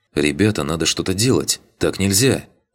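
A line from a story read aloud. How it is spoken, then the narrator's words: Loud whisper. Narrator (Russian): громко прошептала Таня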